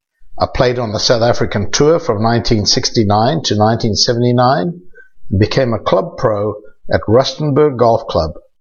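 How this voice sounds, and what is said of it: South African accent. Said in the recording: “You can tell by my accent that I'm originally from South Africa”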